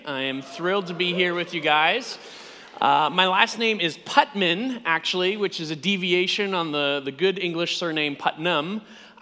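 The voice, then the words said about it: American English accent. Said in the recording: “You can immediately tell by my accent that I'm not from these parts. I am indeed from the United States”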